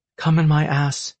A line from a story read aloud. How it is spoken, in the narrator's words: she said through her moans